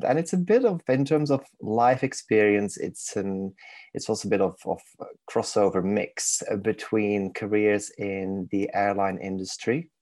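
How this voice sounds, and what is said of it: Belgian accent with Manchester twang. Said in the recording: “I was born and raised in Belgium. So in case people are wondering where the exotic accent is from ... the monk twang kicks in at random times. So it's a bit of a crossover accent”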